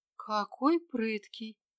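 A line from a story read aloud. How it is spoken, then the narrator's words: Quiet female stranger. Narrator (Russian): тихо промолвила незнакомка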